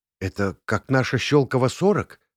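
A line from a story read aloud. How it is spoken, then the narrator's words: Whispering. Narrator (Russian): шепнула Наташа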